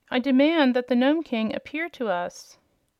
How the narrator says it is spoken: Ozma cried out in a loud voice

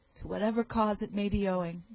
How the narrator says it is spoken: cried

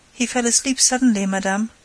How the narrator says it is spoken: said the nurse

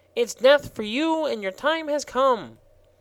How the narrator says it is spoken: he continued triumphantly

